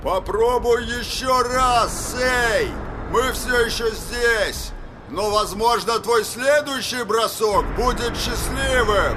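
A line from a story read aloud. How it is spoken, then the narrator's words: Shouted through cupped hands. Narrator (Russian): Роланд сложил руки рупором у рта и закричал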